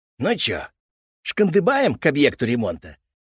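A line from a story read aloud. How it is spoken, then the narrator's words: Cheerful grandson suggestion. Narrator (Russian): весело предложил внук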